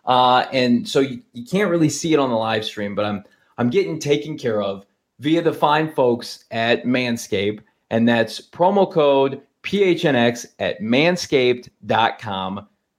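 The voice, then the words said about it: Hoarse, fading voice. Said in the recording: “I'm somehow losing my voice mid podcast”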